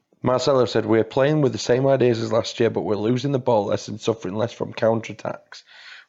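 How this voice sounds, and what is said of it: Put-on Leeds accent. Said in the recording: “Is that one of your accents again? Is it from Leeds? ... That was my accent of the interpreter. ... Leeds.”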